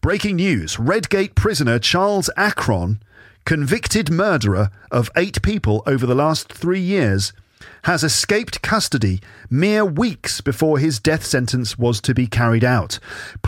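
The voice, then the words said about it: British accent, news report voice. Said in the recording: “I'm going to do all of these in my British accent, basically. Just what's most natural to me.”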